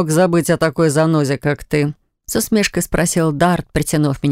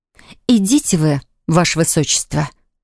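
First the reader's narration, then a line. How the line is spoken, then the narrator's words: Indignant exhale. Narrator (Russian): Возмущенно выдохнула я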